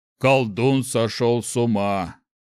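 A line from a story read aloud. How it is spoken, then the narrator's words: Deep voice from behind. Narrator (Russian): где-то за спиной пробасил Шухрак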